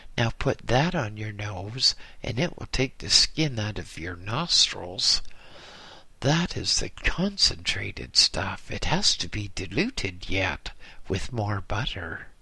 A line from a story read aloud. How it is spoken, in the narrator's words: The old lama laughed, and he said